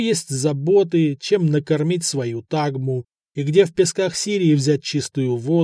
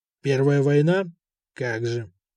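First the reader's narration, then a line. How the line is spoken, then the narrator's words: Incredulous grumble. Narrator (Russian): неверяще проворчал Деметрий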